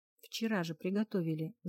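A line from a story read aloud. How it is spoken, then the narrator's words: Thoughtful young man mutter. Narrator (Russian): задумчиво пробормотал парень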